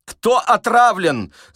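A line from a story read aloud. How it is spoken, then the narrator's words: Shout while struggling. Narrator (Russian): закричал Остап, вырываясь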